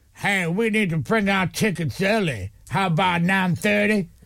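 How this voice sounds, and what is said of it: Imitates another person's voice. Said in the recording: “Is that Brandon? ... That was Brandon. ... It's me doing his voice.”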